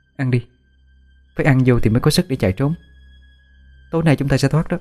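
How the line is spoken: Reassuring. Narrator (Vietnamese): Tôi trấn an

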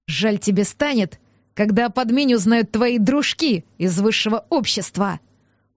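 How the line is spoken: Through gritted teeth. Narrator (Russian): процедил шерх

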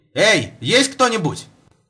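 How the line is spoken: Shouting. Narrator (Russian): Я крикнул

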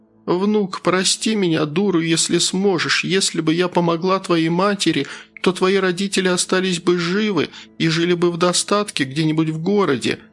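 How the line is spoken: Sobbing. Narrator (Russian): между всхлипами проговорила она

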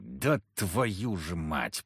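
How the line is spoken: Growl. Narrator (Russian): прорычал я

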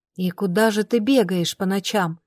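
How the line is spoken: Whisper under breath. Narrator (Russian): прошептала я себе под нос

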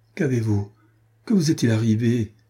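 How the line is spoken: Exclamation. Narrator (French): s'écria-t-elle

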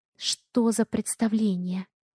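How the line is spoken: Barely audible question. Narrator (Russian): Еле слышно спрашиваю я

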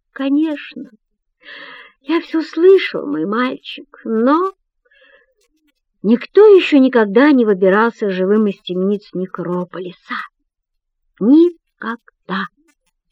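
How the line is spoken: Sad. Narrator (Russian): печально добавляет он

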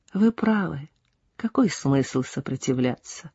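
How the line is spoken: Quiet. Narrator (Russian): сказала она тихо

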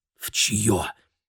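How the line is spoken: Whispered. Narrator (Russian): прошептал Керри

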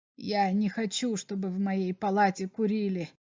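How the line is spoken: Quiet but insistent. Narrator (Russian): сказал Берлах тихо, но настойчиво

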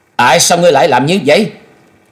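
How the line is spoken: Loud glaring shout. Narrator (Vietnamese): y trừng trừng quát lớn

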